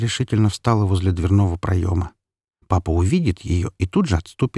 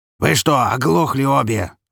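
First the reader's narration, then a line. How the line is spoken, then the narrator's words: Yelled. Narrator (Russian): заорал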